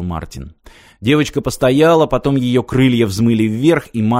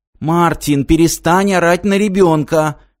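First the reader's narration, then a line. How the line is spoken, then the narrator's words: Shouting. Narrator (Russian): крикнула Ирина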